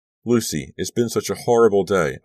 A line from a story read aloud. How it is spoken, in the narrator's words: I blurted out